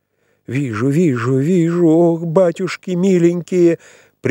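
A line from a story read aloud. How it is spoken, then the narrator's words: Frenzied terrified shout. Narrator (Russian): прерывая чтение, закричала, вся бледная, с искаженным лицом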